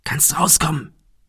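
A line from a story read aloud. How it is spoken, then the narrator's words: Soft call. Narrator (German): rief Thomas leise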